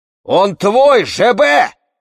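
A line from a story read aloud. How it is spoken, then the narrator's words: Old man shouting. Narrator (Russian): закричал дед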